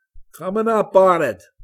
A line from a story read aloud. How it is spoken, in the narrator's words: Tom Bishop yelled